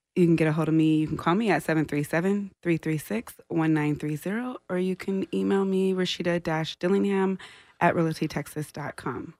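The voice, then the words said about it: Calm, soothing radio voice. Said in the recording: “She has such a lovely radio voice... I'm calm right now... It's very relaxing... It comes very well across on the sound system.”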